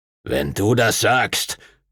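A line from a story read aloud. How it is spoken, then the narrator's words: Growled. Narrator (German): knurrte Master Duncan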